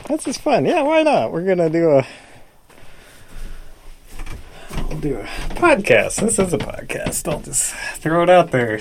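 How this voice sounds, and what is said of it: Slightly out of breath. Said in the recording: “I'm a little out of breath from running around.”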